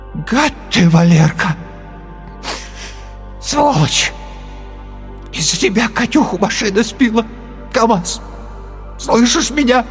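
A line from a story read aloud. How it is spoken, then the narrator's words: Hoarse, tearful voice. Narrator (Russian): охрипший, зареванный голос сказал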